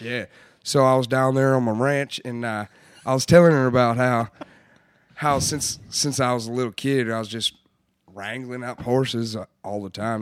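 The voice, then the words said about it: Put-on Texan ranch accent. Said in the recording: “Did you have an accent? ... Sometimes it gets a little, it goes into the ... Australian a little bit ... I guess she liked the way I said ranch”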